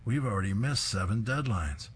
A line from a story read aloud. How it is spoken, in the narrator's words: exclaims